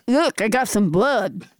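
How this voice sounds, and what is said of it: Impression of an old aunt. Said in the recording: “that's your snuff-chewing aunt with hepatitis you were just doing an impression of”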